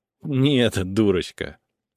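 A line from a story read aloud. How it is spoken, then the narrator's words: Sighing fairy. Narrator (Russian): Фея вздохнула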